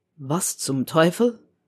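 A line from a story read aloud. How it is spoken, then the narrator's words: Muttering. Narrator (German): murmelte er wieder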